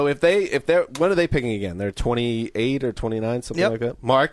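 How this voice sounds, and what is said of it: Usual voice. Nothing is said of it.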